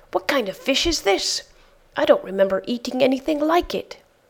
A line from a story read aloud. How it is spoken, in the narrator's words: he cried out in fear